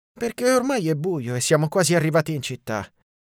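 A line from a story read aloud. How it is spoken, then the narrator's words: Sighed. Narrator (Italian): sospirai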